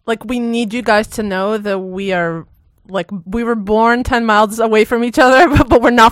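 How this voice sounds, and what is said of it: Israeli accent. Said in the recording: “Straight from Israel. Well, I would say you're born in Israel. ... Still got a good accent.”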